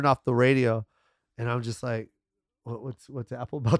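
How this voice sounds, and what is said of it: Usual voice. Nothing is said of it.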